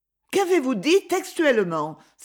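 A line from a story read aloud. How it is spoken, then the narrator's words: Exclaiming. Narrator (French): s'écria Thérèse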